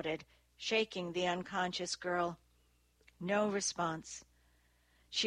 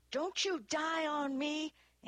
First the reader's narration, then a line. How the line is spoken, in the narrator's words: Annie yelled